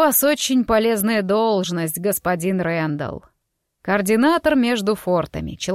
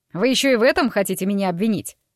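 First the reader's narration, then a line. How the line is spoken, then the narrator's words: Snapped. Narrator (Russian): огрызнулся он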